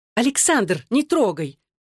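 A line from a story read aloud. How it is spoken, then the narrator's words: Sharp shout. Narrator (Russian): прикрикнула Кэролайн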